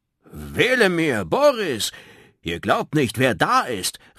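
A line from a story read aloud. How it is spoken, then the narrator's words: Called out. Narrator (German): rief er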